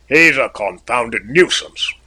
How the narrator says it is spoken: growled the purser

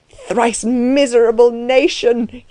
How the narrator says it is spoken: he cried aloud

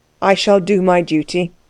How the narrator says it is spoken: said Axel stiffly

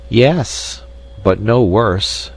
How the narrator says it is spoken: answered the weasel

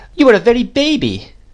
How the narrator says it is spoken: exclaimed Miss Betsy

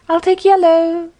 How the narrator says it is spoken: cried

